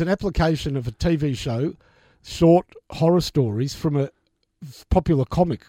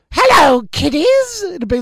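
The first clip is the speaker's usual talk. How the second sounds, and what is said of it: Imitates a skeleton horror-show host. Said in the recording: “my impersonation of this show ... Whose host was a skeleton with long, straggly hair. Who spoke like this?”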